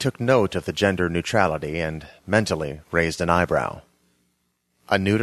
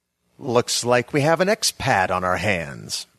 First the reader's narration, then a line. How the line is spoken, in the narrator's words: said a sneering voice I recognized as Adam Kilkenny